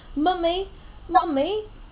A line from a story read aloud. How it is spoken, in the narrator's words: she was crying desperately